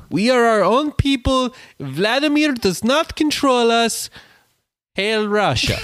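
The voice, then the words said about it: Put-on Eastern European accent. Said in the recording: “your instinct was to run to a Russian accent ... Eastern European”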